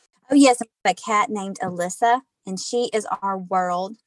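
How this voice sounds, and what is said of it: Southern US accent. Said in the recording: “listening to your accent, you are not from the Midwest ... I am from South Mississippi”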